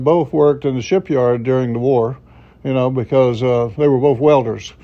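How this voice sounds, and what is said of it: Southern Florida panhandle accent. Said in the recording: “in the panhandle there, you know, kind of redneck area... that's why the accent that I have... I don't sound like I'm from New York”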